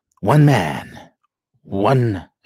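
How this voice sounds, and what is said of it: Dramatic movie trailer announcer voice. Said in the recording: “put on my movie announcer voice.”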